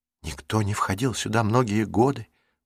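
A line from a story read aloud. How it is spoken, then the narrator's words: Whisper. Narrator (Russian): прошептала Марук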